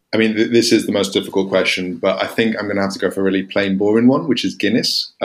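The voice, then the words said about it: English accent. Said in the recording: “as you can tell from my accent, I'm English”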